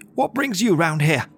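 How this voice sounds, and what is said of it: Posh-sounding character voice. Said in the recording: “that sounded posh.”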